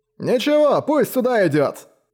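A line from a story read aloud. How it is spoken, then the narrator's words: Shout from a regular. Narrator (Russian): крикнул кто-то из завсегдатаев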